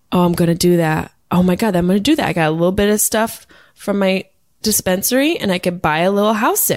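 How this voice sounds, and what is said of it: Usual voice. Nothing is said of it.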